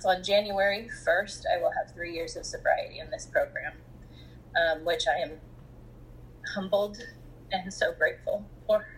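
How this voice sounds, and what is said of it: Choked-up, emotional voice. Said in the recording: “As you can tell in my voice, I get choked up.”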